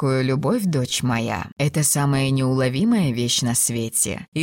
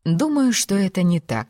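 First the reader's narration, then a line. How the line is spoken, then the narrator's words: Calm reply. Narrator (Russian): спокойно ответила Розамунда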